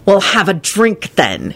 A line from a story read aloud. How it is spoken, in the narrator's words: he snapped at Kenny